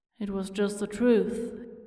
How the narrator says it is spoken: mutters

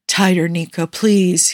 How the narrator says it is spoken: moans

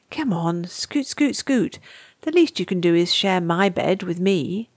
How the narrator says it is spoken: muttered, as he gently pushed

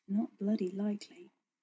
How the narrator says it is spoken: Rodney mutters

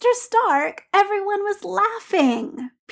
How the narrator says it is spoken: Peter said, aware that he was whining and unable to stop it

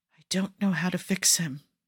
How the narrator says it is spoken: he whispers

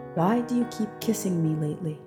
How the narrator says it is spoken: asked softly, her bravado from moments ago gone

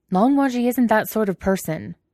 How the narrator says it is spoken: says Wei Wuxian hotly

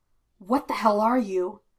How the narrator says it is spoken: gasped

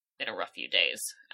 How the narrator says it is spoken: I muttered sullenly

